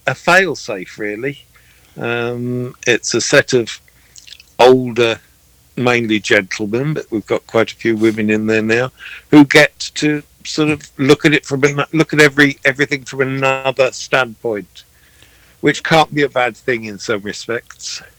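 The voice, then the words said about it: Welsh accent. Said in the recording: “that really cool accent is from the UK. He's from Wales, and it is real.”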